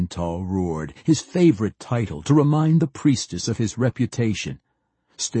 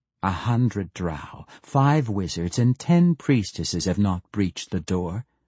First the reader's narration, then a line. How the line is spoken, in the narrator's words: she said evenly